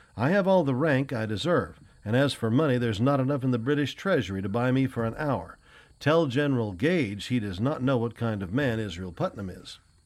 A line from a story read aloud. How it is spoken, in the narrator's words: he cried